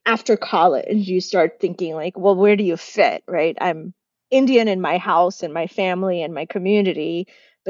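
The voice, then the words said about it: American accent. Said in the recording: “I sound American.”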